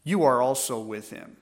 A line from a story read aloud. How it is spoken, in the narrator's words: earnestly she looked upon him, and she said